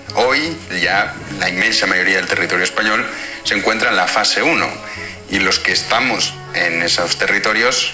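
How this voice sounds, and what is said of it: Spanish accent from Spain, clear tone. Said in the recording (Spanish): “tiene acento español... me gusta mucho su tono de voz, es muy claro”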